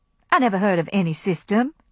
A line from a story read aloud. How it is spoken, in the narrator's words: she said crossly